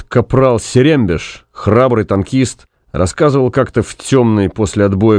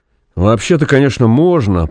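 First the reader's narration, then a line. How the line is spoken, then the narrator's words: Uncertain. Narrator (Russian): проговорил неуверенно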